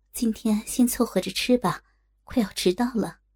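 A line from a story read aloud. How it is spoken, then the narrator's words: Patient, gentle coaxing. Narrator (Chinese): 陆三凤耐下性子，温柔的劝道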